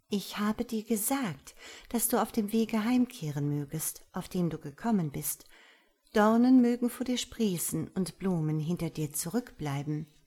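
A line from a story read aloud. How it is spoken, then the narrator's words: Gentle soft voice. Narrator (German): die Kaisertochter sprach mit sanfter Stimme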